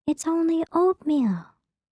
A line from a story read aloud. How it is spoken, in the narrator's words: Goldie said sweetly